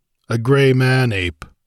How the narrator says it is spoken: he grunted

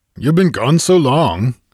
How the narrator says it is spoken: he shouted above the wind

